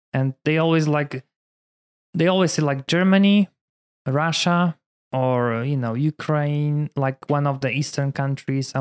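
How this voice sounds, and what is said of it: Polish-accented English. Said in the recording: “father, you know, you have an accent, where are you from? ... I'm from Poland”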